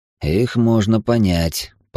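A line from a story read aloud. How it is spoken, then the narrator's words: Grumbling. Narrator (Russian): проворчал я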